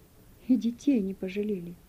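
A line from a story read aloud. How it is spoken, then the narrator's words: Quiet elderly woman. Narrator (Russian): Пожилая женщина тихо сказала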